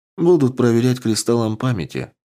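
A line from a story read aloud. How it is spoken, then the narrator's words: Calm reply. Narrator (Russian): спокойно ответила Амазонка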